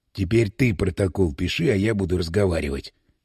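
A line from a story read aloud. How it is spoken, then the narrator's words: Whisper. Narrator (Russian): шепнул Иван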